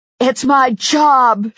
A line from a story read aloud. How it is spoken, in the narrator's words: she screamed at me